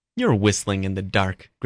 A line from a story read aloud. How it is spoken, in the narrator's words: Griffin scoffed